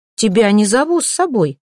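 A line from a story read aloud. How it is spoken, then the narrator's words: Sharp, curt. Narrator (Russian): резко бросила чародейка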